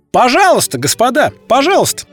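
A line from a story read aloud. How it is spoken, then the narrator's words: Loud. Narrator (Russian): громко произнес Д'Артаньян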